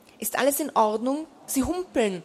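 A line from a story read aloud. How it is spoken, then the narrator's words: Plain. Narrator (German): sagte Winter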